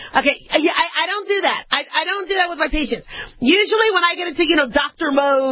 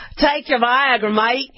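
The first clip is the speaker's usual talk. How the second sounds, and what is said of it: Put-on Australian accent. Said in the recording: “Or Australian, you know.”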